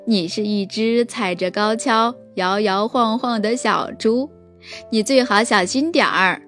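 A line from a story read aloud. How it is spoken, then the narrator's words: Laughing. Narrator (Chinese): 斑马大笑着说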